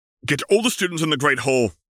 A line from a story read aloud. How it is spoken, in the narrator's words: he barked commandingly